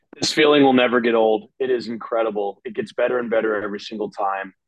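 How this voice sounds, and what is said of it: Strained, worn-out voice. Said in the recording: “my voice is, I'd say, about like 60%, maybe 62.33 repeating percent. It was really wow. Bad when I woke up this morning. I was letting the TV have it last night”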